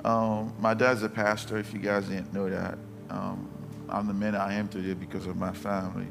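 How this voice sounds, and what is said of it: Non-native English accent. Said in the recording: “I have an accent. I wasn't born here.”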